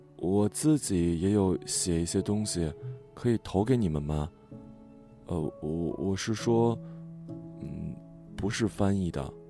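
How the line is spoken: Soft. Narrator (Chinese): 轻声说

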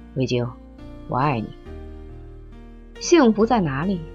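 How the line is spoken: Low voice. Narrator (Chinese): 米阳低声说

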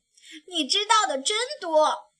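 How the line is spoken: Little bear, loud laughing. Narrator (Chinese): 小熊大声笑着说

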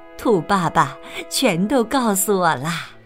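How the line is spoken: Laughing. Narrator (Chinese): 妈妈笑着说

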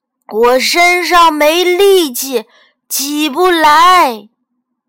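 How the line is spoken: Loud grandmother. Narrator (Chinese): 奶奶大声说

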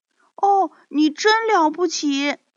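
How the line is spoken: Excited shouting. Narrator (Chinese): 可可猪和辣辣猪都兴奋地大叫起来，说

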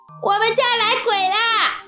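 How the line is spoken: Noisy clamoring shout. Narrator (Chinese): 马小跳大呼小叫

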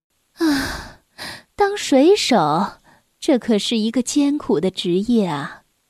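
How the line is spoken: Mother sighing. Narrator (Chinese): 他的妈妈叹着气说

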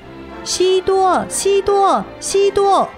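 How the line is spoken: Shouting. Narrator (Chinese): 他大喊着

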